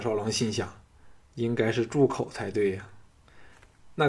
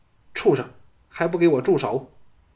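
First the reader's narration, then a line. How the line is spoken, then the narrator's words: Furious woman shouting. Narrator (Chinese): 倪夫人勃然大怒，喝道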